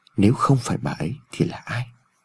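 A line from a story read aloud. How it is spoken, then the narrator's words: Inaudible muttering. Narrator (Vietnamese): Ông Phúc lẩm bẩm trong miệng mà không người nào nghe thấy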